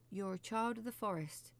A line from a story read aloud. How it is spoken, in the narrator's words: Joel said, his voice trembling